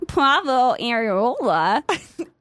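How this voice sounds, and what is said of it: Exaggerated Midwestern American accent. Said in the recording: “Can you do that in your Midwestern accent? ... That is the worst thing I've ever heard”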